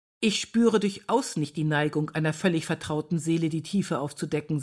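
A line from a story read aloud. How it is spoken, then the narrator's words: Said curtly. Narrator (German): sagte er schroff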